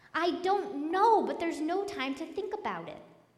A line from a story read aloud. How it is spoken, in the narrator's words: exasperated, Stripe couldn't stand it any longer, and he yelled back